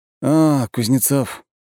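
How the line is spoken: Exhaled words. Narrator (Russian): выдохнул Марк

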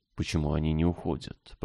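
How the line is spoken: Whispered. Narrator (Russian): прошептала Анна

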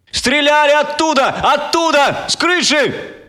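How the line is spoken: Shaky, breaking shout. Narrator (Russian): прокричал трясущимся, рущимся голосом

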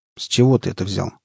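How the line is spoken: Calm question. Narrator (Russian): спокойно спросил у парня Борода

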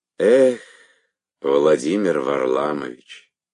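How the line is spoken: Rueful sigh. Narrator (Russian): проговорила мама, сокрушенно вздохнув

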